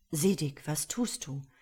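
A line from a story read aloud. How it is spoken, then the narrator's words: Gentle deep resonant question. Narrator (German): fragte er sanft, und seine Stimme war rein und tief wie eine kostbare Glocke und genauso weithin hallend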